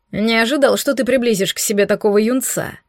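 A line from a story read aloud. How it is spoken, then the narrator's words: Puzzled snort. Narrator (Russian): озадаченно хмыкнул Дорн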